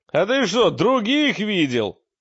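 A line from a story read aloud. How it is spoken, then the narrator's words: Barked. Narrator (Russian): гаркнул мрак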